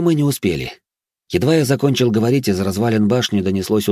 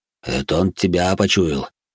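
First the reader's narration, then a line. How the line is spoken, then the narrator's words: Gruff mutter. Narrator (Russian): буркнул Грон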